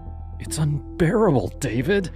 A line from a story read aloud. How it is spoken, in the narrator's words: she said one night, her voice trembling